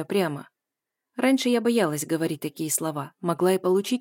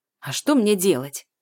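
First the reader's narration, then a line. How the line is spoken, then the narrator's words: Angry question. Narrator (Russian): спрашивает она зло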